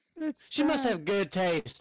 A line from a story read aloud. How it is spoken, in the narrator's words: I laughed